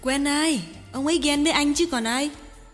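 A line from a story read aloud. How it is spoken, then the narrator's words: Sighing. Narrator (Vietnamese): Chi thở dài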